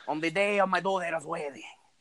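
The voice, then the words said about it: Weird mafia-movie accent. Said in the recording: “With like, you're with like, a really weird accent.”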